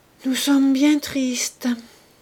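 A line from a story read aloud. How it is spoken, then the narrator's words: Sighed. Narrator (French): soupirait Madame Charbonnel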